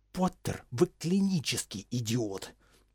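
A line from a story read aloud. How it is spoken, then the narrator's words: Angry breathless hiss. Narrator (Russian): Не сдержавшись, Северус, задыхаясь, прошипел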